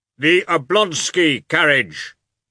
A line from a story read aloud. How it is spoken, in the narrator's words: shouted in a stern bass